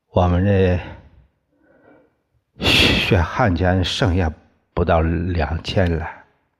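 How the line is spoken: Trembling voice. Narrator (Chinese): 然后声音发抖的说

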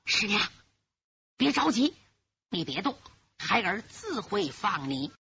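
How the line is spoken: Low voice. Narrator (Chinese): 侯国英低声说

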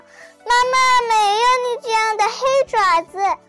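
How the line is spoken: Shouting in chorus. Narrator (Chinese): 小羊们一起大叫道

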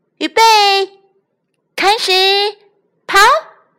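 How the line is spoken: Shout. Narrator (Chinese): 蓝兔子喊

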